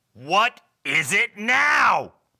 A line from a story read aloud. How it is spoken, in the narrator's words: barked Bob